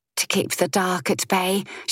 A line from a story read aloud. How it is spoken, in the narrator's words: she said softly